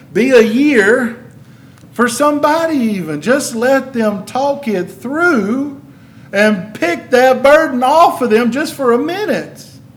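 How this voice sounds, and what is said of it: Kentucky accent. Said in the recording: “I know I got that Kentucky accent, it sounds like Y-E-A-R”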